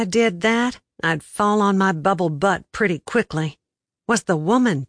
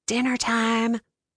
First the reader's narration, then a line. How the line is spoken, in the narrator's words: Betsy whispered into my ear